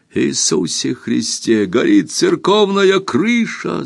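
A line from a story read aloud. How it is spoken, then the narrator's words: Alarmed shout. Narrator (Russian): закричал Лавранс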